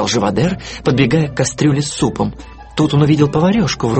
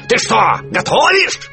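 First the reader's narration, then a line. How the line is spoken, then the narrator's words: Yelled. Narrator (Russian): заорал он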